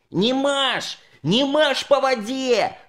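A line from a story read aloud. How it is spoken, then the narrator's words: Shouting. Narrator (Russian): закричал Санька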